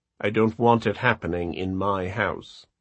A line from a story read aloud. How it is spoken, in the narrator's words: she said dryly